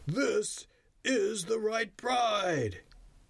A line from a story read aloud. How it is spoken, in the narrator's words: he cried